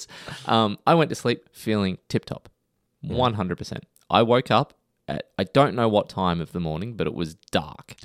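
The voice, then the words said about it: Scratchy voice. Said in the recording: “My voice is a little bit scratchy ... I sneezed, it ripped my throat”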